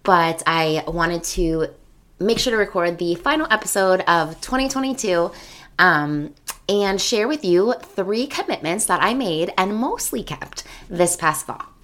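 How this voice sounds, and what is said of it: Voice strained and congested. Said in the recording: “Please excuse my voice, I have yet another cold ... I don't know how long my voice is going to last”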